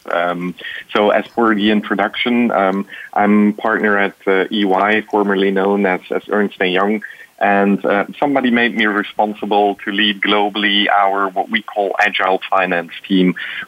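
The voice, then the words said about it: Belgian accent. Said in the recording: “I'm Belgian born and raised, so maybe it's in the accent.”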